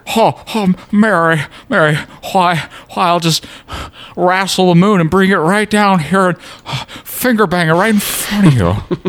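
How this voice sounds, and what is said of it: Imitates another person's voice. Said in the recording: “That's not a very good Jimmy Stewart impression.”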